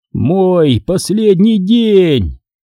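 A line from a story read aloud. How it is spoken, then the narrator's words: Shout. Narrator (Russian): закричал я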